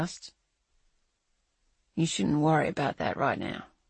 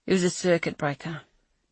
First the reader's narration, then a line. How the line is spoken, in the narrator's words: Cash sighed